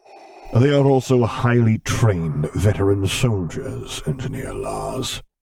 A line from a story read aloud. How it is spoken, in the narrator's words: a deep mechanical voice rumbled